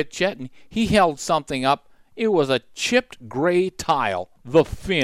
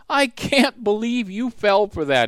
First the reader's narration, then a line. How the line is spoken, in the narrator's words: he laughed